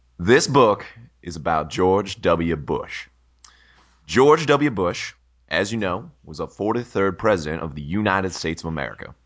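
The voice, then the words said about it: Slight put-on Texas accent. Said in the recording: “it had a different slight Texas accent, and I would like you to do the same”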